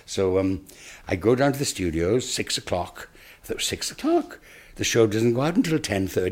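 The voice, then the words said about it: Welsh Monmouthshire accent. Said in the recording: “you have a very interesting Monmouthshire accent”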